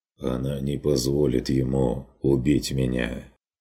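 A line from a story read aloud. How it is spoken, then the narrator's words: Quietly dropped. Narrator (Russian): проронил тот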